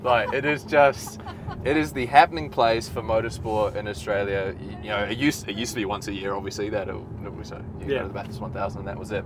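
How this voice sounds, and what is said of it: New Zealand accent. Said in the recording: “I don't know if people can tell from my accent, but I'm obviously Kiwi ... From New Zealand.”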